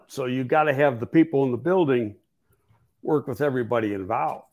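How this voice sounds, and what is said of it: Losing voice, coughing. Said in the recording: “I've got a lung problem. And when it gets later in the afternoon, it flares up. So that's why I'm losing my voice sometimes and I start coughing”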